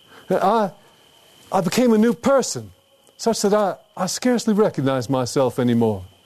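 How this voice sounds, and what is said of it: Louisiana accent. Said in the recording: “Sanskrit pronounced with a Louisiana accent”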